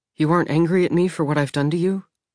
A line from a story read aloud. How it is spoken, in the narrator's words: She asked quietly